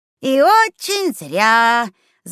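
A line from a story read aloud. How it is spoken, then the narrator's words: Tedious drawl. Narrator (Russian): занудно протянул Ахтун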